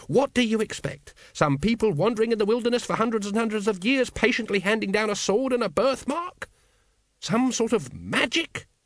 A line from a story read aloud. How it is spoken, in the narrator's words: He spat the word